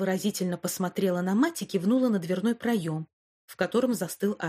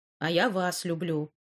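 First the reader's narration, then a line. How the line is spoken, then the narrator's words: Grumbling. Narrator (Russian): проворчал Альф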